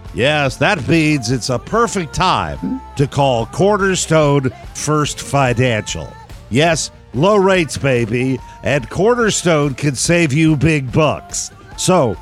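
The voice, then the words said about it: Silly put-on voice. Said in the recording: “doing this silly voice”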